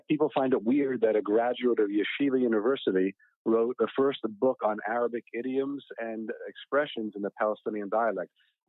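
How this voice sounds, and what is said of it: Accent of a non-native Arabic speaker. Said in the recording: “I hear by your accent ... I do not assume you are a native Arabic speaker.”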